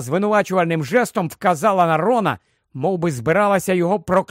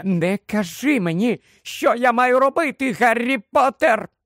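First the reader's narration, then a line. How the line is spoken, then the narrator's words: Continued shrieking. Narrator (Ukrainian): Продовжувала верещати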